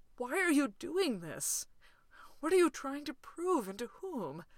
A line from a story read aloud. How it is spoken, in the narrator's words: desperately wants to ask